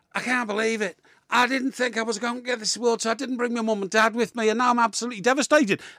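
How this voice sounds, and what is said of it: Imitated Scouse accent. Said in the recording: “she's a Scouser ... that accent and that voice”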